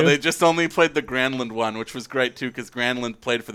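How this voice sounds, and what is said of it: Usual voice. Nothing is said of it.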